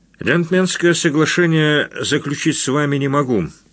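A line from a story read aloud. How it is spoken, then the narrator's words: Plain. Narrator (Russian): ответил Гришин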